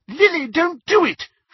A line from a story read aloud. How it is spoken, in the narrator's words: shrieked the elder of the two